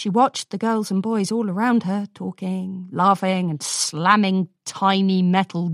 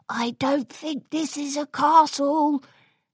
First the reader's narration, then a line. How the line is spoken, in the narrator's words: Spike whispered